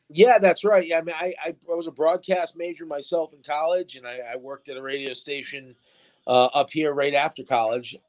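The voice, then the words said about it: Smooth radio announcer voice. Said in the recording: “you definitely have that radio voice”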